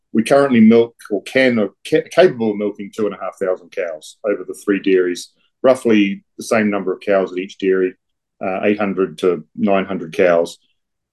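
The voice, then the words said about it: New Zealand accent. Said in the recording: “I'm obviously from New Zealand.”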